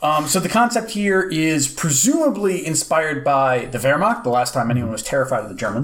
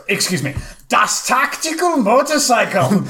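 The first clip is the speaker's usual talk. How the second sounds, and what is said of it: Bad fake German accent. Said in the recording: “I can't do a very good bad German accent”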